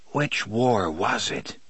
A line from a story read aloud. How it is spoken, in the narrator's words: Roland whispers